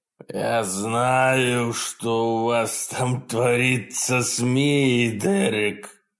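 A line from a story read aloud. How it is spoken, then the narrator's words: Monster growling. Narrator (Russian): прорычал монстр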